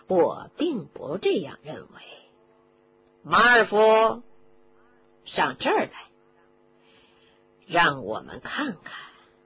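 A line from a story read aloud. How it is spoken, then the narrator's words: Sneering. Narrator (Chinese): 斯内普接着冷笑着说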